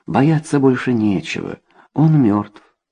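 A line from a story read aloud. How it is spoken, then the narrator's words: Gentle. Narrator (Russian): ласково говорил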